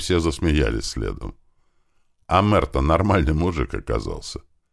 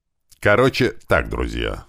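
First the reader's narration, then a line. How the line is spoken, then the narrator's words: After laughing, speaking. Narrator (Russian): отсмеявшись, взял слово Иван Иванович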